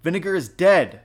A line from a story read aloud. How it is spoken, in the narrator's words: Ira shouted again, trying to keep his voice stable